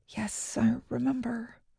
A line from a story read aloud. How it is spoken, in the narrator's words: I mumbled to my flip-flops